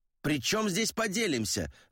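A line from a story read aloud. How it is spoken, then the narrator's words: Barked. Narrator (Russian): рявкнул Гутьеррес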